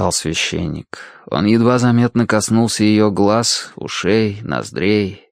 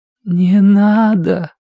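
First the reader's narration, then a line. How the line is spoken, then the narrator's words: Strained, forced out. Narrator (Russian): выдавила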